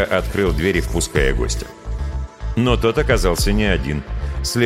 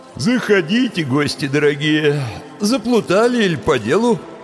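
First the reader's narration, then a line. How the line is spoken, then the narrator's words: Sleepy grumble. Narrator (Russian): сонно проворчал он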